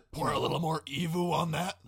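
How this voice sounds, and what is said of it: Low, gravelly imitation of another person. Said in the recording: “my Rachel Ray impression ... super low and gravelly”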